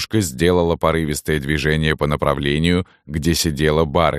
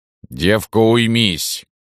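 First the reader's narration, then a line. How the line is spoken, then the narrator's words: Bellowing woman. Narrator (Russian): Уже гаркнула Салтычиха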